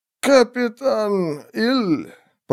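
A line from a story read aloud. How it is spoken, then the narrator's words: Stunned mutter, hoarse exhale. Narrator (Russian): пробормотал он пораженно, глубоко вздохнул и сипло выдохнул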